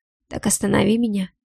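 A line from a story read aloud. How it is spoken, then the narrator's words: Hoarse whisper. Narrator (Russian): хриплый шепот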